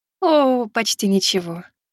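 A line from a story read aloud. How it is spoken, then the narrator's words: Cooing woman. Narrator (Russian): проворковала Келл-леди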